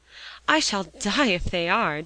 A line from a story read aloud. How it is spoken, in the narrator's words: declared Polly desperately